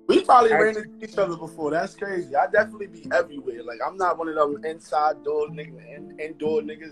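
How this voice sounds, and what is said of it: Brooklyn New York accent. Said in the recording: “he got to be from Brooklyn because his accent is a little, like, it's familiar”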